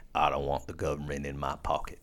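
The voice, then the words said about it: Put-on accent. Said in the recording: “I don't know why I use that accent. It just sounded... cool.”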